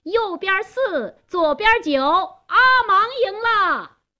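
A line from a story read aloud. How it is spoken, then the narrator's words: Loud announcing shout. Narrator (Chinese): 加斯东做公证人，他高声喊道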